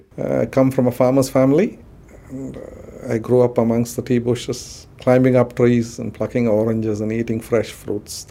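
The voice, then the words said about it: Strong accent. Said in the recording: “My kids tell me I do have a strong accent.”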